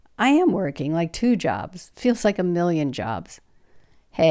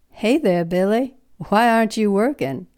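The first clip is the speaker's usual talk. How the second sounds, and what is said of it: Deep Georgia drawl. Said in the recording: “I loved his deep Georgia drawl.”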